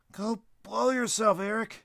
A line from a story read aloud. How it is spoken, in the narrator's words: With his face turning red and tears streaming from his eyes, he yelled